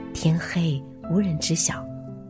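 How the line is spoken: Official whispering. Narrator (Chinese): 官员悄声说道

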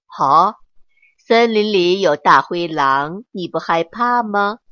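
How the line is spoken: Laughing. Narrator (Chinese): 爸爸 笑了起来

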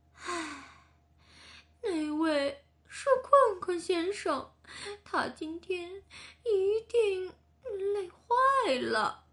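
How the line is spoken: Sighing. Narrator (Chinese): 服务员叹了一口气说

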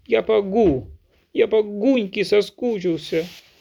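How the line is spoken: Sobbing speech. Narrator (Russian): сказал, не переставая всхлипывать

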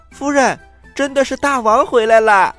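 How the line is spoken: Loud shout. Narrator (Chinese): 她向里面大声的喊

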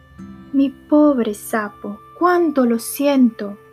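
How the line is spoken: Exclaimed. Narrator (Spanish): exclamó

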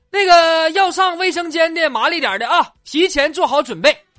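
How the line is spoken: Driver calling out. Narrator (Chinese): 司机喊了一嗓子

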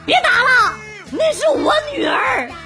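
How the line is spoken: Shouting while running. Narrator (Chinese): 邻居在疯狂的往回跑，一边跑一边大喊

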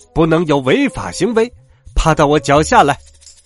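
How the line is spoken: Shouted. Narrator (Chinese): 他喊道

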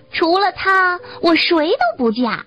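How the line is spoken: Loud young woman. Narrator (Chinese): 最年长的少女对另两个妹妹大声说

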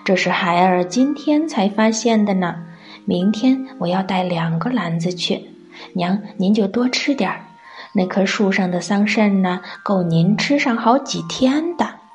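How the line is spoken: Proud laughter. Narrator (Chinese): 蔡顺得意的笑着说

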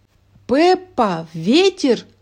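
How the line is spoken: Breathless grandmother's exclamation. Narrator (Russian): воскликнула бабушка, несясь на всех парах

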